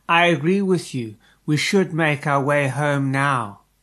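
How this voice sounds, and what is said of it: Very soft voice. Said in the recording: “In a very soft voice”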